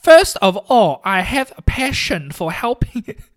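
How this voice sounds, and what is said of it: Imitates another person's voice. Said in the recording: “my Uncle Dan impression.”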